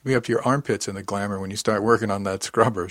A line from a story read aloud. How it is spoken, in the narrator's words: laughed